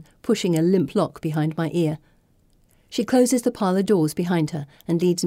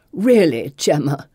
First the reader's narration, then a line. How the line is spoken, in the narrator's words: growls